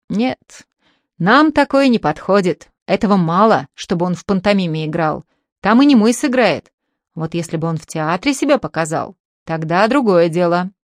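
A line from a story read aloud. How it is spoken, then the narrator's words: Displeased teacher. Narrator (Russian): учитель недовольно говорит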